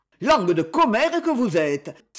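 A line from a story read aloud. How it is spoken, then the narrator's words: Exclaiming. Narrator (French): s'écria Félix Prunelle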